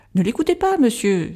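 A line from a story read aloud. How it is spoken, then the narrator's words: Bursting out laughing. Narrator (French): s'écria Madame Bilder en éclatant de rire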